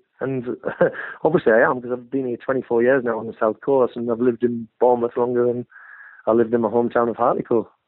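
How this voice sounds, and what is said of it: Northern English accent. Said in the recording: “Apart from the accent, you can't lose that”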